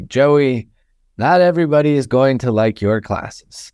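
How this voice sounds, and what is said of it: Heavy Ukrainian accent. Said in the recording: “very heavy Ukrainian accent.”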